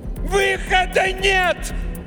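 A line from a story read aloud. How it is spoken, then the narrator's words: Yelling. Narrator (Russian): заорала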